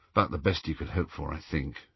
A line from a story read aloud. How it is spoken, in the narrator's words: murmured Harry